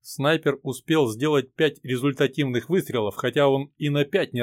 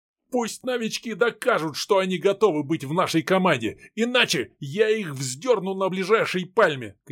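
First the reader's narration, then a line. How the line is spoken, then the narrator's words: Captain shouting. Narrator (Russian): кричал капитан на боцмана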